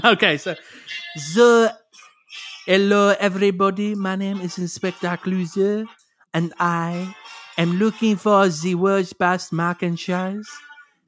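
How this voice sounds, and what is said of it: Comic French detective accent. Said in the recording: “the best Inspector Clouseau accent”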